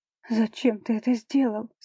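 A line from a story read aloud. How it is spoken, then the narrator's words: Trembling voice, questioning. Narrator (Russian): спрашивает дрожащим голосом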